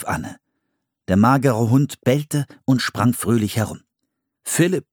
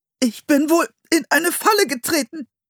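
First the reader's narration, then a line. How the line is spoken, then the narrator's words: Strained, pained voice. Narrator (German): sagte er mit gepresster Stimme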